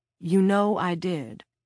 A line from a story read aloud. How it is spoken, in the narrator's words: Clint said